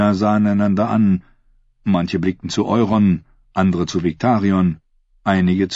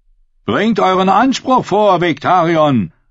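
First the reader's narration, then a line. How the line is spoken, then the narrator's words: Called out. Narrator (German): rief der Merlin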